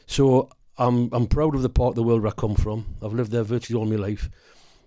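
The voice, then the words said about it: Northeast English accent. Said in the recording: “I'm born and bred in the northeast of England, as you can probably tell by my voice.”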